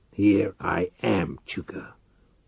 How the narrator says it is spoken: said hoarsely

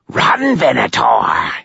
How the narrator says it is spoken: hissed the Stygian

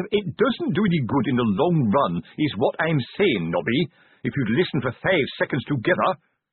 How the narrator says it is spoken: said Fred Curran sharply

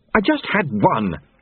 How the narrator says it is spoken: she snapped

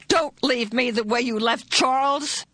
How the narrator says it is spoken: With this burst of terror, a spasm of pain racked her body and she gasped

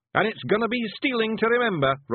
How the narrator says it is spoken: Rob yelled to another cheer

